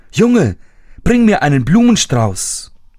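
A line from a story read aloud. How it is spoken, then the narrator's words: Calling out. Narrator (German): rief ihn an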